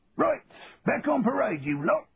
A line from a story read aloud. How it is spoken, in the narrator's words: shouted Sergeant Major Philpott